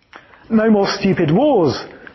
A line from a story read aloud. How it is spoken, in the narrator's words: exclaimed the young man